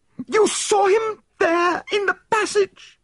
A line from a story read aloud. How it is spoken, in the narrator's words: she cried